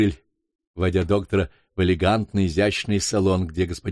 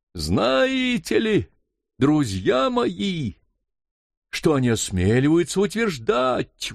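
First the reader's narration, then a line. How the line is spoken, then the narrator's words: Indignant exclamation. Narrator (Russian): воскликнул доктор, в пылу негодования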